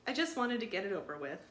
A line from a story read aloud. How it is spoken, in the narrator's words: Louise said quickly